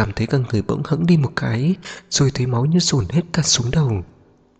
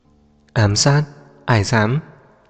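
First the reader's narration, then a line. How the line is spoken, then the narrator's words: Cold laugh. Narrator (Vietnamese): Liệt bật cười lạnh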